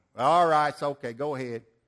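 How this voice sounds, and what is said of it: Put-on Georgia accent. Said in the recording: “Georgia accent.”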